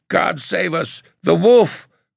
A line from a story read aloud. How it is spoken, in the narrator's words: cries Patrick Duncan